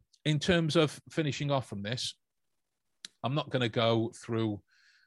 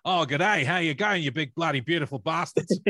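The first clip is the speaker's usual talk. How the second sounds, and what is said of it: Exaggerated Aussie accent. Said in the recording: “that was a terrible Aussie accent ... that sounds more like Aussie man”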